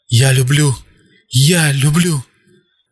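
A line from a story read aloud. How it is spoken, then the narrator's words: Drugged moaning. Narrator (Russian): Спустя 25 секунд после введения вещества он начал стонать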